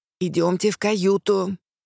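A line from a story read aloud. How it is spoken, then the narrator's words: Hissing maid. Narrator (Russian): снова зашипела служанка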